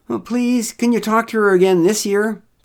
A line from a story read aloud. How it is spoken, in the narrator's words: pleaded Derek